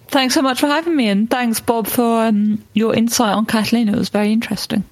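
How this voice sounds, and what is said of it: Lovely foreign accent. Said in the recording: “such a lovely accent. I could listen to you all day”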